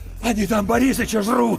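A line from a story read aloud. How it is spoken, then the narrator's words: Shouted, shaking. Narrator (Russian): выкрикнул Иван, и его затрясло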